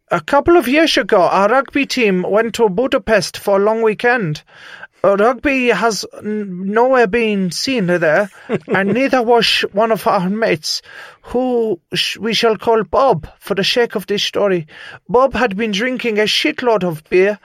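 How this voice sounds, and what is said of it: Bad put-on Dutch accent. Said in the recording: “my bad accent ... This is the best Dutch that I can do”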